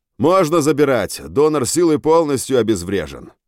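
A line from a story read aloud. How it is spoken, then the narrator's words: Loud. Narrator (Russian): Буф громко произнес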